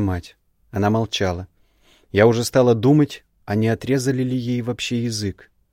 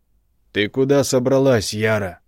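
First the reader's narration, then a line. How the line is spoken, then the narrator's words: Father barking loudly. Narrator (Russian): гаркнул отец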